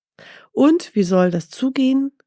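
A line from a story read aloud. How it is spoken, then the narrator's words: Calling out. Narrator (German): rief Mustafa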